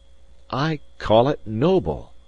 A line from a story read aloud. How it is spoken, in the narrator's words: I cried